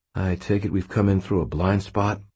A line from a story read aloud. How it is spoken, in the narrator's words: I asked Fitz quietly